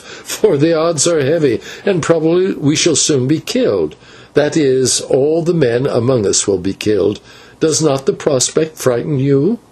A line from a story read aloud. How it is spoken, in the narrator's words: answered with a little laugh